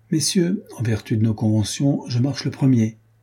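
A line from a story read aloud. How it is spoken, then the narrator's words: Plain. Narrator (French): dit Carquefou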